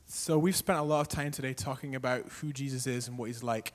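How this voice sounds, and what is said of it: Northern Irish accent. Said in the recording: “The guy's accent, hopefully you understand, he's from Northern Ireland”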